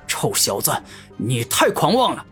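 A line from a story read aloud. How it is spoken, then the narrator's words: Angry roar. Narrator (Chinese): 狂战王怒声一吼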